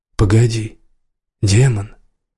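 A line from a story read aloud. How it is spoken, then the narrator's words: Hoarse moan. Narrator (Russian): охрипшим голосом простонал Кел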